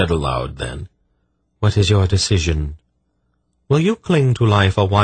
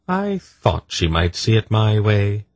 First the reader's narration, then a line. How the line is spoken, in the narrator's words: Poledra said calmly